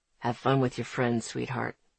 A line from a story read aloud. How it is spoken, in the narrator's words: murmur